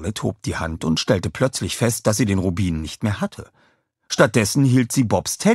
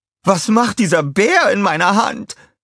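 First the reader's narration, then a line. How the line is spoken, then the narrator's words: Shouted. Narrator (German): schrie sie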